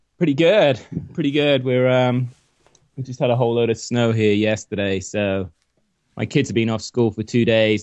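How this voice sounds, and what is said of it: Slight British accent. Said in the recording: “you got a slight British accent”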